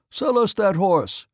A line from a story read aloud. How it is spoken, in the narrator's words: Denisov called out to the Cossacks